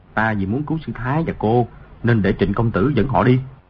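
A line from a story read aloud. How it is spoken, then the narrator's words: Soft, head bowed. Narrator (Vietnamese): Di Tiểu Bảo cúi đầu nói khẽ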